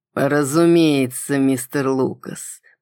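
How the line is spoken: Near purr. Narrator (Russian): почти мурлыкнул Милкис

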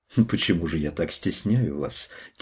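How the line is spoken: Soft, gentle question. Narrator (Russian): тихо и ласково спросила Анна

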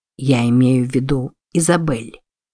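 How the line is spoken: Very quiet speech. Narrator (Russian): очень тихо сказал

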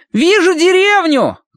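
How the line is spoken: Shout from above. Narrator (Russian): крикнул сверху Колин

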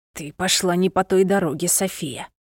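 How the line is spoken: Whisper in the ear. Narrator (Russian): прошептал на ухо знакомый голос

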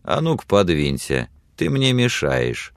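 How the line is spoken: Calm reply. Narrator (Russian): спокойно отвечал Билли

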